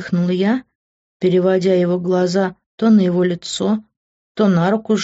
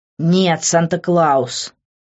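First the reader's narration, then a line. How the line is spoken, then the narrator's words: Through clenched teeth. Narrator (Russian): процедил он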